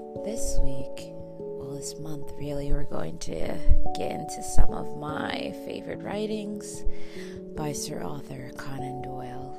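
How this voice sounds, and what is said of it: Raspy, congested voice. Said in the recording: “I do apologize for my extra raspy voice this week. Sinuses are in full swing”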